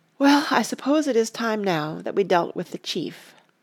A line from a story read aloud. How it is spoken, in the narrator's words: Frodo said with a sigh